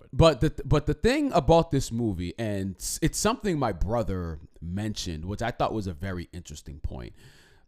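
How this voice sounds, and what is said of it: Slightly hoarse, strained voice. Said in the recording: “my goodness, my, throat. I'm losing, am I losing my voice? I feel like I'm losing my voice. ... A little bit.”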